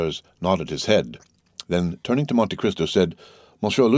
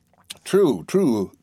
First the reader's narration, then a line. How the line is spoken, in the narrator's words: cried Danglars